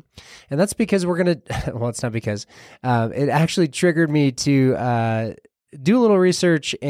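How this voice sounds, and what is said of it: Nasal, congested voice. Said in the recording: “you probably hear that my voice is a little nasally”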